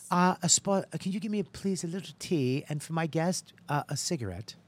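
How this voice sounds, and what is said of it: Old-fashioned posh 1930s woman accent. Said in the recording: “Was it from the 30s? ... Where did that accent come from? ... Breakfast at Tiffany's. Remember, white rich women had a accent.”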